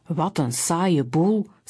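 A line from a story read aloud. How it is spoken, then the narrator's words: Plain. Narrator (Dutch): zei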